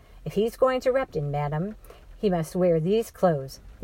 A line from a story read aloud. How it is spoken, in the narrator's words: the assistant said firmly